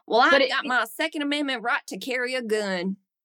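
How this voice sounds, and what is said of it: Put-on Southern American accent. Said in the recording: “I like your Southern accent”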